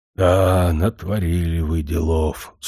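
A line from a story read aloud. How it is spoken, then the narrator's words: Grumbling mutter. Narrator (Russian): снова пробурчал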